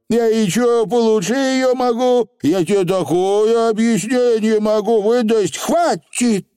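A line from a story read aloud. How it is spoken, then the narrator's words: Shouted. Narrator (Russian): крикнула Тифани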